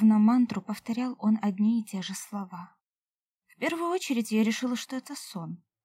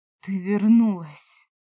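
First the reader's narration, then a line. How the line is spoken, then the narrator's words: Breathed softly. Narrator (Russian): выдохнул он мне в губы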